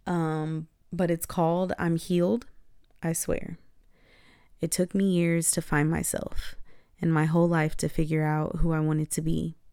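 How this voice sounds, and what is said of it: Slightly raspy, tired voice. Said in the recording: “my voice is a little raspy because it is 11 o'clock at night. It's been a long day. And I'm pretty tired.”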